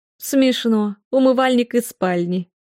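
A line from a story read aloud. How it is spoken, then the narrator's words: Ringing laughter. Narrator (Russian): заливисто расхохоталась Джилл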